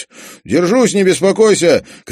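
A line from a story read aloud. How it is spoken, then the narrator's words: Shouted. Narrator (Russian): крикнул Олег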